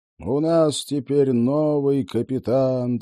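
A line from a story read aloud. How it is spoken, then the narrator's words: Solemn announcement. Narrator (Russian): торжественно объявил он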